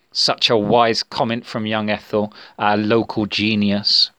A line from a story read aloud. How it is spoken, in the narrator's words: responded Sam bitterly